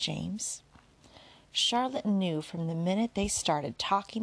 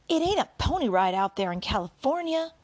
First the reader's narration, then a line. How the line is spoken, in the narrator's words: Ebeneezer practically shouted